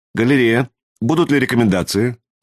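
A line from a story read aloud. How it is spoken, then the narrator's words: Calm inquiry. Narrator (Russian): спокойно осведомился премьер-адмирал Харрис Басадж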